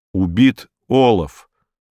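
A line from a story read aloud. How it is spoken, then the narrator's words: Plain. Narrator (Russian): сказал инспектор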